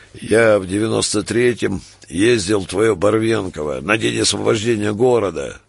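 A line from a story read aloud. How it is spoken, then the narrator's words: Gloomy, nostalgic. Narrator (Russian): хмурым и ностальгическим тоном говорил Городецкий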